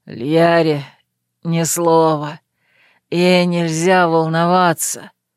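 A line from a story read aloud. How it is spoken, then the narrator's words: Menacing hoarse rasp. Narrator (Russian): прохрипел Верт, грозно прищурившись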